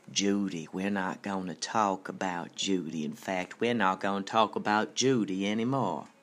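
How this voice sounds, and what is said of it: Impression of Agent Jeffries. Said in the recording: “my impression of Agent Jeffries”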